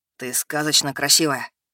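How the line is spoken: Quiet. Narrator (Russian): тихо молвил он

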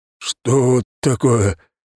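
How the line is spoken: Trembling question. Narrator (Russian): дрожащим голосом спросил

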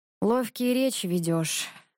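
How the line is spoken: Sighing. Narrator (Russian): вздохнул Иван

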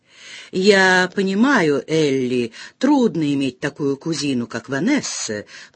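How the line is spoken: Spiteful creaky voice. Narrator (Russian): проскрипела она, злобно

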